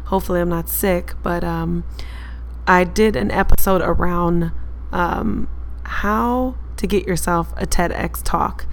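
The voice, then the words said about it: Hoarse, strained voice. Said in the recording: “bear with me as I'm losing my voice.”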